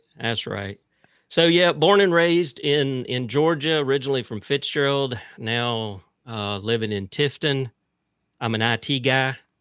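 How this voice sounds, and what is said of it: Mild South Georgia accent. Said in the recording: “I'm from South Central Georgia... you may pick up a little bit of that accent. But it's not that bad.”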